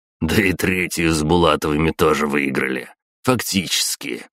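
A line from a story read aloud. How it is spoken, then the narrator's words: Snorting. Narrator (Russian): хмыкнул Измаил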